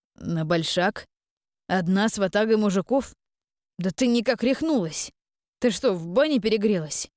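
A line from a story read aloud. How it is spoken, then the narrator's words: Young man exclaiming. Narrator (Russian): воскликнул парень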